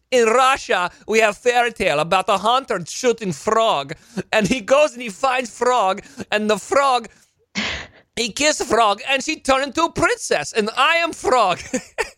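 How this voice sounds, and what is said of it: Bad put-on Russian accent. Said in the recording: “This accent of yours is horrid. Horrid.”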